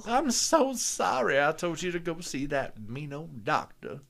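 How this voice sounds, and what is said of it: Put-on sweet Southern belle accent. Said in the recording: “They all talk like this ... she just had this ... sweet little ... Southern belle.”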